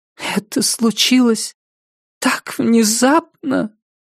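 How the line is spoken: Tragic whisper. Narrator (Russian): промолвила она трагическим шепотом

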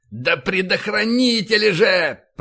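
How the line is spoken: Growled. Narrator (Russian): прорычал Файн

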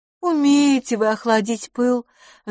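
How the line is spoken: Sigh. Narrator (Russian): вздохнула мисс Лафос

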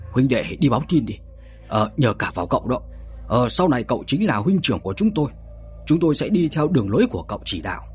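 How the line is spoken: Excited, profuse thanks. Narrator (Vietnamese): Đám âm binh vô cùng phấn khích, liền cảm ơn Bạch Thế Bảo rối rít

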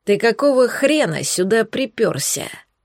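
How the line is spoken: Growling. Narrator (Russian): прорычал Бирюк

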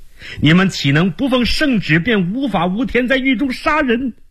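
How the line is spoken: Hurried shout. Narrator (Chinese): 周茂兰连忙喊道

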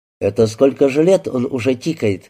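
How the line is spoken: Plain question. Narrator (Russian): спросил Слава

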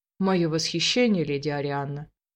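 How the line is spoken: Soft. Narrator (Russian): мягко произнес

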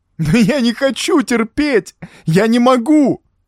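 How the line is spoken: Sobbing breakdown. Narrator (Russian): Разрыдался полностью растерявший свое лицо и достоинство человек в черном

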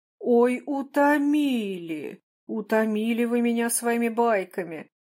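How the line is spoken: Laughing. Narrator (Russian): засмеялся Бородин

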